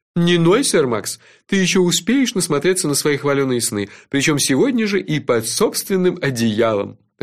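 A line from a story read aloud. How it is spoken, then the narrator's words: Laughing. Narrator (Russian): рассмеялся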